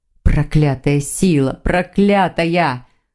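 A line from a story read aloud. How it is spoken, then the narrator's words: Growl. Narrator (Russian): Он зарычал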